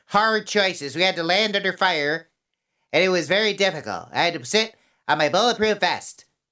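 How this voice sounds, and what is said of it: Impression of Hillary Clinton. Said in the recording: “like Hillary Clinton ... I don't know how to do her accent.”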